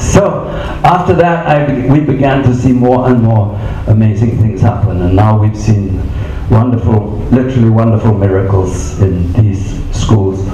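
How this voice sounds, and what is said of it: English accent. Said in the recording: “you already tell from my accent I'm English”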